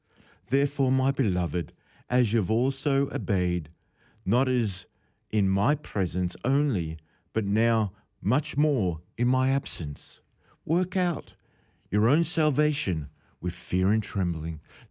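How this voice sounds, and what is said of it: Preacher's ministerial King James voice. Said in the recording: “put on my ministerial voice now, because I'm speaking efficiently and fluently in the old style King James”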